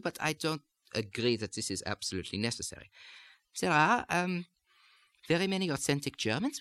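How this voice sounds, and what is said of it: German accent, fairly monotone pitch. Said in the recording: “the pitch of the German accent. As you hear in the way I'm speaking right now, there is not an enormous amount of pitch change ... stay quite monotone”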